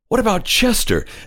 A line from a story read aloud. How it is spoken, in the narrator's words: exclaimed Mrs